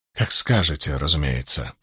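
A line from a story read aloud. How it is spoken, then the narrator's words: Mumbling. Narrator (Russian): пробормотала женщина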